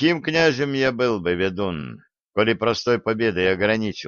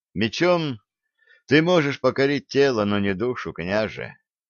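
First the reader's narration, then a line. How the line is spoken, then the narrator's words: Sighed. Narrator (Russian): вздохнул Олег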